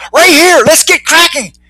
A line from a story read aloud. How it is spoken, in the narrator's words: Leslie yelled